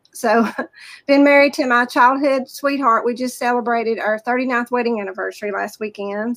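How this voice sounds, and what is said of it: Southern US accent. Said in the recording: “You can tell by my accent, I'm from the South.”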